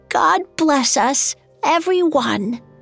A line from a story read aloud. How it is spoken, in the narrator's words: His hand shook as he raised the cup and exclaimed in a frail voice